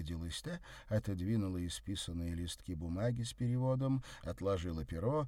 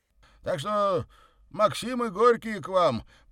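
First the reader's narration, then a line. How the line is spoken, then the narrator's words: Loud announcement. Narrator (Russian): громко известил лакей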